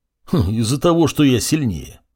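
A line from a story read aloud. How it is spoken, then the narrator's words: Bearded man grunting. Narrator (Russian): хмыкнул бородач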